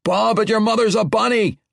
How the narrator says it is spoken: Erethio's spikes roared once more

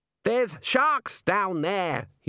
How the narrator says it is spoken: he shouted

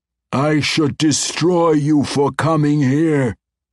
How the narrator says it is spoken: the great white worm roared

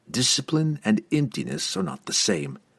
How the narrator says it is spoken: Drizzt answered

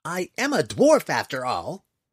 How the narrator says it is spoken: he blurted at them

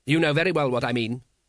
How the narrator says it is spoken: said Vetinari sharply

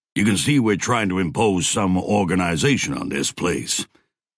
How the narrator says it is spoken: Roberta said

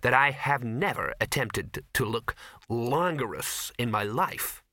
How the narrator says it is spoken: said Ginger coldly

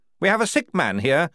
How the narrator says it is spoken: he snapped to the astonished guards

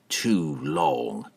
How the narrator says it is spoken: Entreri muttered under his breath

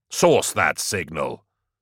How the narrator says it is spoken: Gaunt snapped

